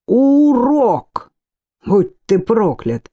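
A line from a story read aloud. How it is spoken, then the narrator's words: Emotional outburst. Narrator (Russian): воскликнул Титус, и все его затаенные чувства прорвались наружу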